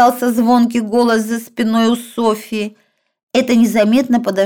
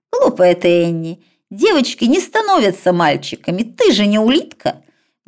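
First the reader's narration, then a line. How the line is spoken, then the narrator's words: Quick reply. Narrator (Russian): Быстро ответил сестре Дэвид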